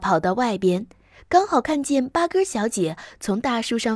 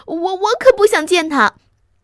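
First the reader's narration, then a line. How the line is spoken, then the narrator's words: Short cry. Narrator (Chinese): 稀里呼噜叫了一声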